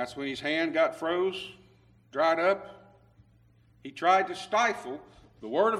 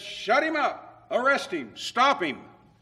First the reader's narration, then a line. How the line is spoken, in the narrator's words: Jeroboam, he cried out against the altar in Bethel, said